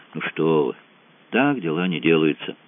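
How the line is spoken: Plain. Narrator (Russian): сказал Франсуа

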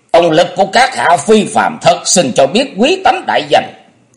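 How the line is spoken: Shrill laugh, asking. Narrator (Vietnamese): Người nọ cười the thé rồi hỏi

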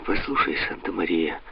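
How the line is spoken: Weak pained voice. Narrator (Russian): морщась от боли, слабым голосом сказал де Пальма

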